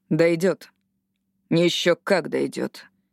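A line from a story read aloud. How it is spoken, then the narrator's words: Gloomy. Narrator (Russian): мрачно сказал Беллинджер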